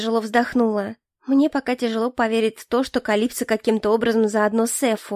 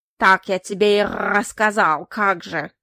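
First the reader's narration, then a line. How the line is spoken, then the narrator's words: Mocking croak. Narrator (Russian): насмешливо каркнул ворон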